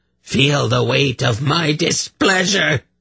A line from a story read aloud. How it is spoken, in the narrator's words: he roared at her